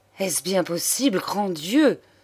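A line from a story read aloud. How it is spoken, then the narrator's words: Exclaimed, beside himself. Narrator (French): s'écria hors de lui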